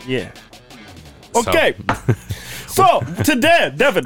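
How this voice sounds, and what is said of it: Speaks in a put-on accent. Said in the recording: “I'm honestly trying not to do the accent anymore, but it's not working ... I still do it ... I'm having a hard time getting out of accent that I use for intro”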